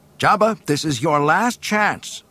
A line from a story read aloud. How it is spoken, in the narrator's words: shouted Luke